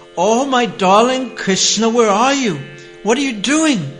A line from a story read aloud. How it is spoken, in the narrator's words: Yasoda called out